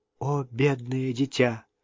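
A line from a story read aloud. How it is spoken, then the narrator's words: Shocked whisper. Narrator (Russian): прошептала Мэнли, потрясенная сознанием того, что Ханна долго плакала одна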